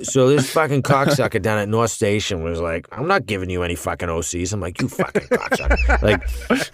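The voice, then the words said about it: Exaggerated full Boston accent. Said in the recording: “just go like full scale Boston for the rest of this conversation ... in my Boston, I don't have to think”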